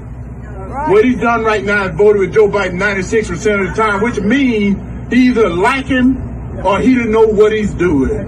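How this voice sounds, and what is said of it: Southern American accent. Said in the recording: “I love me a Southern gentleman with an accent.”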